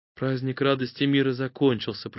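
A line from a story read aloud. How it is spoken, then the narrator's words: Whisper. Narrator (Russian): прошептала она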